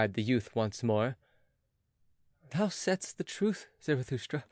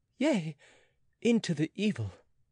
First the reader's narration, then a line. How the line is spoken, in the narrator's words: cried the youth